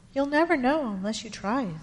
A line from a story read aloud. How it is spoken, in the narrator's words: said his mom